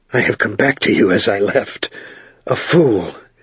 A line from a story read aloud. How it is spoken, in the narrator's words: his voice harsh and thickened